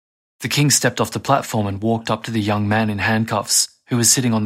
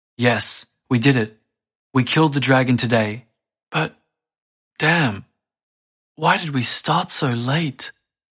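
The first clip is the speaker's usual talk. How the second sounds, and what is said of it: Broken, emotional voice. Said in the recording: “answered in a broken voice”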